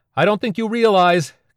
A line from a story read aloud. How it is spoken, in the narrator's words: shouted